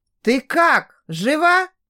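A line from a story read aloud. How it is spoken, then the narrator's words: Exclamation. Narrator (Russian): воскликнул Винсан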